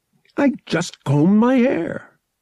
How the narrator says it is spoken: Julana growled, amused

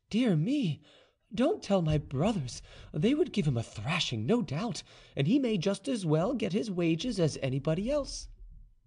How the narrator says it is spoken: Madame de Brinvilliers exclaimed

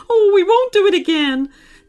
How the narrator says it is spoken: cried

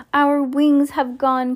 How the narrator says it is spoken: cried Mr

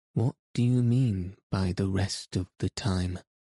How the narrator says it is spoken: I asked

